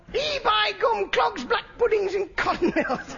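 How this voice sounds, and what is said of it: Put-on northern English accent. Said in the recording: “I'm playing Nanook of the North, and this is a northern accent I'm doing”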